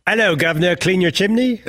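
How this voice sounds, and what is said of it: Put-on British accent. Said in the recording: “my spot-on British accent”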